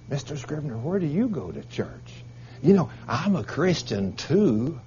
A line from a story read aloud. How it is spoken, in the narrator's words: The men ask me quietly